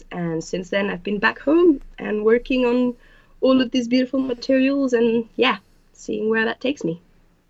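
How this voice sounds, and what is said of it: Mixed French and English accent. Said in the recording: “your accent, I hear French accent and I hear an English accent. It's a nice synthesis.”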